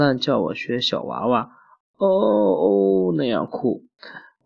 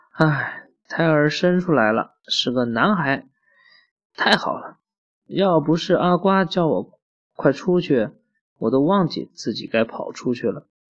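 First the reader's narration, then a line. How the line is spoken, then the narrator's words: Sighing. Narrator (Chinese): 兰兰叹了一口气说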